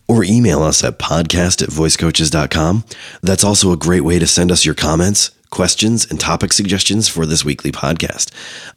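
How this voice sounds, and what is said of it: Nearly lost, weak voice. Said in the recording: “the epicness of my voice when it's actually here ... your voice has. So long ... hopefully a little bit more in voice”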